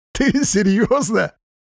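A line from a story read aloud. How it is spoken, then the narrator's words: Uncontrollable laughter. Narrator (Russian): Тимуров безудержно расхохотался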